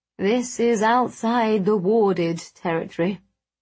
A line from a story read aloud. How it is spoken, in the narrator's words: Agrippa sighed